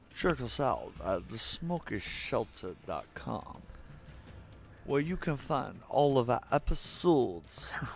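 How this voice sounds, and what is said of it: Bad Sean Connery impression. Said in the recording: “the worst Sean Connery impression.”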